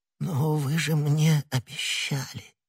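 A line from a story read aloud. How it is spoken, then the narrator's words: Barely audible, miserable babbling. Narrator (Russian): чуть слышно пролепетал несчастный галантерейщик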